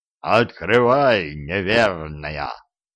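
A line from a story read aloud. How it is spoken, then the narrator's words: Inhuman roar from outside. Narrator (Russian): вздревел кто-то с улицы нечеловеческим голосом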